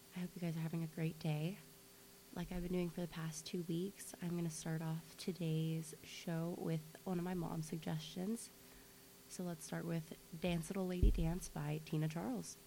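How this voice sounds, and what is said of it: Slightly sick-sounding voice. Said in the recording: “I'm sorry if I sound a little sick today. I am.”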